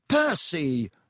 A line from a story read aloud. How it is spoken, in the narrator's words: said Ron angrily